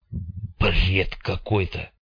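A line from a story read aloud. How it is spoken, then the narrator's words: Muttering to himself. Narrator (Russian): пробормотал Карташов себе под нос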